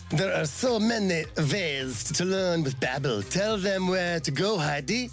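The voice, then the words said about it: Bad put-on Italian accent. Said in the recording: “That's my Italian accent. ... you need to spend a little more time on Babbel. It's bad.”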